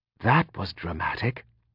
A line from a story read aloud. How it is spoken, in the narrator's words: Rue whispered